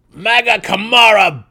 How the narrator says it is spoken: screamed

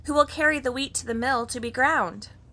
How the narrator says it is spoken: she called out

